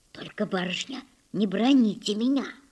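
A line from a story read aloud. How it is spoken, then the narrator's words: Whispering close to ear. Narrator (Russian): зашептала Дуняша, наклоняясь к самому уху Татьяны Аркадьевны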